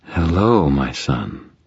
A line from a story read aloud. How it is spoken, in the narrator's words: Leah purred, evidently unaffected by the smoke and unconcerned about the fire